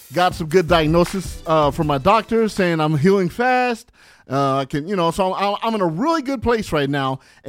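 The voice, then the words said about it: Energetic, hyped-up voice. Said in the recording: “you can hear it in my voice, like I'm really hyped up.”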